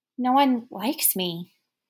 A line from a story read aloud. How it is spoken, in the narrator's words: the uncertain little girl sighed